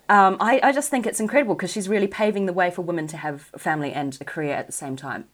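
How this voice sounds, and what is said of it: New Zealand accent. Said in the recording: “New Zealand, which is where I'm from, if you haven't gathered from my accent”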